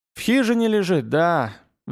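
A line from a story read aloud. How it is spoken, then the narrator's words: Sighing boy. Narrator (Russian): вздохнул паренек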